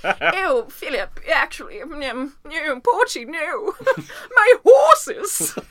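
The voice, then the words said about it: Posh British accent. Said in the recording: “It sounds very British.”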